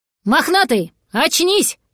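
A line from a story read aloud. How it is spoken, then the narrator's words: Shouted from behind rubble. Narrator (Russian): крикнул из-за завала голос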